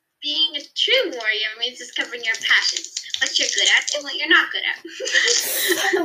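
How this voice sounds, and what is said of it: Spirit Miss character voice. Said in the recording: “try to do my Spirit Miss voice ... Don't blame me if it's horrible ... It's really good.”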